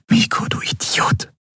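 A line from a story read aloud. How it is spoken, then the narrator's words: Whispered. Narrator (German): flüsterte sie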